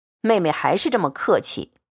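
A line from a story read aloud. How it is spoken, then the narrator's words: Laughing. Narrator (Chinese): 宝玉笑道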